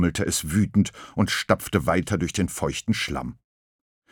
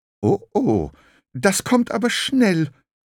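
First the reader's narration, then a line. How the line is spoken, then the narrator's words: Fearful. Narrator (German): sagte es ... ängstlich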